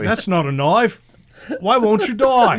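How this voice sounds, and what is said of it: Put-on Australian accent. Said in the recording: “a New York Italian doing an Australian accent”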